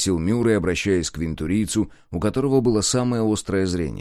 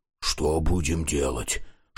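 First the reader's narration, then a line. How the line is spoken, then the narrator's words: Whispered question. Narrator (Russian): шепотом спросил Дозер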